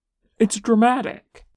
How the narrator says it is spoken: adds happily

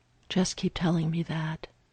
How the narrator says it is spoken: Steve whispered back

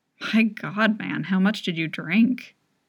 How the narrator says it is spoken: Jay laughs unsympathetically

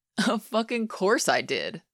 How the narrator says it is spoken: Scott said, laughing

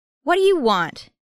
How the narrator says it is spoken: Elliot yells

